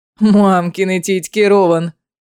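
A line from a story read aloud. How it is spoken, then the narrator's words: Loud laughter. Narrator (Russian): громко расхохотался Фенрис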